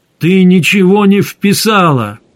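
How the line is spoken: Shouted. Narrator (Russian): крикнул Гессер

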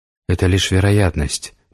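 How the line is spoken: Whisper. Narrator (Russian): прошептала Светлана

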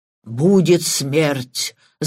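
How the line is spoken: Sepulchral voice. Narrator (Russian): загробным голосом произнес Патрик

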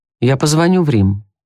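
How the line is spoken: Calm reply. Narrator (Russian): спокойно ответил офицер

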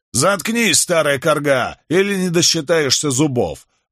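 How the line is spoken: Bark. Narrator (Russian): рявкнул парень, раненый в руку

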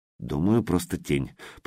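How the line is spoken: Grumbling. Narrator (Russian): проворчал Смайли

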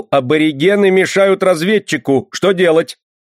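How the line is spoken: Shouting. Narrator (Russian): Асмодей закричал

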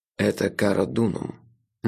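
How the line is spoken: Quiet, clear male voice. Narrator (Russian): негромко, но очень четко произнес за моей спиной мужской голос

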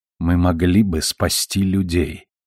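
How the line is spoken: Very quiet. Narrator (Russian): совсем тихо проговорила Карванидис

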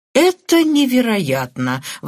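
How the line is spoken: Exclaimed. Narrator (Russian): воскликнул Патрик

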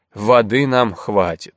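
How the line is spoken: Wry grunt. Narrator (Russian): Сулим хмыкнул

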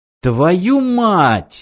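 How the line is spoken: Exclaiming. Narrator (Russian): воскликнул Мартин

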